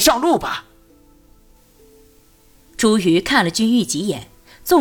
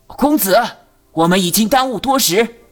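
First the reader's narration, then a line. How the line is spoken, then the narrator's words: Loud call. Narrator (Chinese): 庞班大声道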